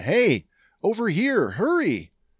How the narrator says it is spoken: Trace, yelling to Omega

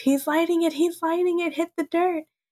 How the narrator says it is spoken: Lenny notices Sid about to light the explosive and yells

